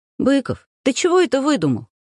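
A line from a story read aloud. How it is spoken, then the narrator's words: Cheerful, smirking remark. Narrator (Russian): Усмехнувшись, весело заметила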